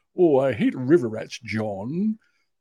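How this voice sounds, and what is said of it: Imitates a Star Trek character's accent. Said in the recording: “he talked like Sulu from Star Trek ... He had this really cool accent.”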